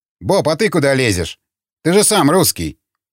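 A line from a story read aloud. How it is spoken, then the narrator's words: Grumbling former judge. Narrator (Russian): проворчал бывший окружной судья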